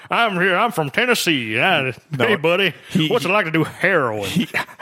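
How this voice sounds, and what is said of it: Fake Southern accent. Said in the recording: “He has the exact same fake Southern accent.”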